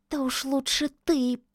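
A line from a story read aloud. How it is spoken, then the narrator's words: Hissing. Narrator (Russian): прошипел кот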